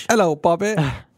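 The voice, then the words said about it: Bad put-on British accent. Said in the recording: “I'm sorry for any British people that are listening. ... I meant mine and ... yours are bad.”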